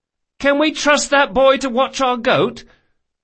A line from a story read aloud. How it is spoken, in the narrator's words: Locke cried above the din